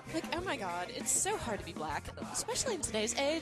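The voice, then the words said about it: Valley Girl accent. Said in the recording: “Valley Girl accent”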